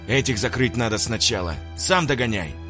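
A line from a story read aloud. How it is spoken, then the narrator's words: Snapping back. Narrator (Russian): огрызнулся Семен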